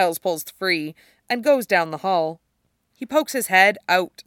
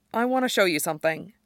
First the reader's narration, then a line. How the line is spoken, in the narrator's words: he quickly says